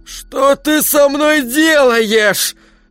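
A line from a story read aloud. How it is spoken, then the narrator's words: Rasping. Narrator (Russian): прохрипела она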